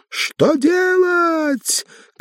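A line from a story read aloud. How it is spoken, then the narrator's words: Final desperate shout. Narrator (Russian): крикнула она в последний раз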